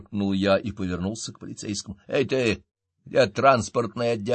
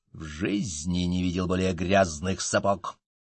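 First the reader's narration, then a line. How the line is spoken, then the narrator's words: Hiss. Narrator (Russian): прошипел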